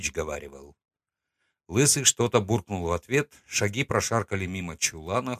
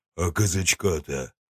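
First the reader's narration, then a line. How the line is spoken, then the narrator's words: Deep bass voice. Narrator (Russian): пробасил Дубина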